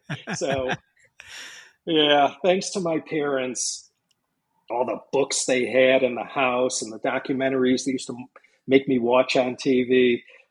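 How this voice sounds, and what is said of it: American Chicago accent. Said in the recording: “listeners can hear from your accent that you're likely American ... if you haven't picked up on it yet from this accent, I'm from Chicago”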